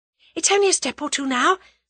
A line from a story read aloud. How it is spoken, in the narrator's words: said Tuppence breathlessly